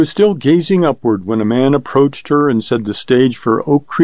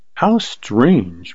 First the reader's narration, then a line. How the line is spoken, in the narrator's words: murmured Carly